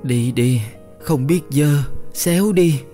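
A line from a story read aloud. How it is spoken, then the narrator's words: Hoarse woman's voice. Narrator (Vietnamese): Chị cất tiếng khàn khàn nói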